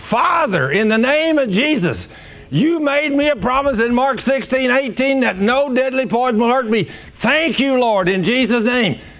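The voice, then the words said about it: Screaming a prayer. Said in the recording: “I'm screaming”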